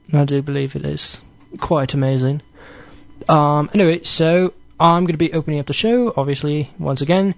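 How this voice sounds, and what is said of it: Put-on British accent. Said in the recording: “I'm talking my British accent”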